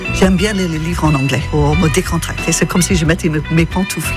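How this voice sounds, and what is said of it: Noticeable foreign accent in French. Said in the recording (French): “Magnifique accent”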